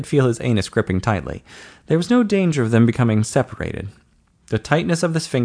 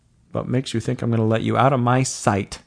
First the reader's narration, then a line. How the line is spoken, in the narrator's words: Don chuckled